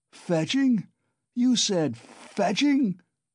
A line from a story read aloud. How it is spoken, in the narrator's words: roared Razumihin